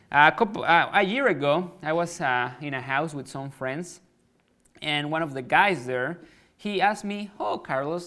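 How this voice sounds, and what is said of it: Mexican-accented English. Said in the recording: “I'm from Mexico, like I said. That's why I have an accent.”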